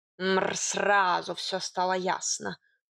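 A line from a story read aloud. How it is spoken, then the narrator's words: Cat grumbling. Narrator (Russian): пробурчал кот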